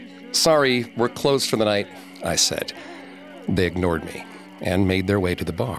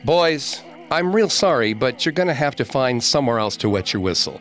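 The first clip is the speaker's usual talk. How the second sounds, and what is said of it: Raised, louder voice. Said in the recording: “I raised my voice.”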